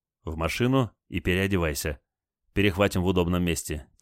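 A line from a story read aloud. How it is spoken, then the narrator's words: Quiet call. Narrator (Russian): тихо позвал Олег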